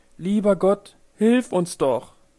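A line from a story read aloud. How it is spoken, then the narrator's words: Exclaiming. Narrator (German): rief sie aus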